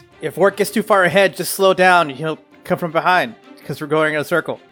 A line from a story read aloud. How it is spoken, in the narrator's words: Niklaus yells to Cirrus